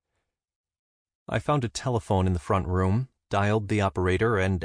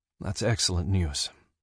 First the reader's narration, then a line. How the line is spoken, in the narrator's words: sighed, and surely never had a man sounded more relieved